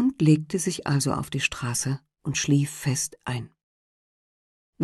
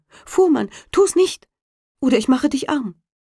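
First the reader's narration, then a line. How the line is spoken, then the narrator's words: Called out. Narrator (German): Da rief er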